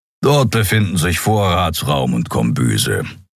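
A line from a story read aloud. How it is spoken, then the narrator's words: Grumble. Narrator (German): brummte Keero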